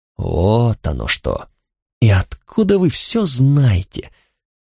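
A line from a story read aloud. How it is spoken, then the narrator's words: Muttering through teeth. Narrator (Russian): Пробормотал я сквозь зубы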